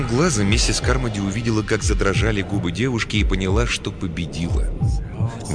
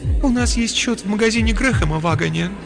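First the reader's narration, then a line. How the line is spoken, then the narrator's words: Tearful reply. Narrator (Russian): сквозь слезы ответила Филлис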